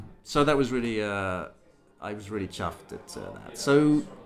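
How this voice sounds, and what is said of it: Usual voice. Nothing is said of it.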